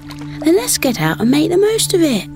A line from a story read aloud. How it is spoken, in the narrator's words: Bertie exclaimed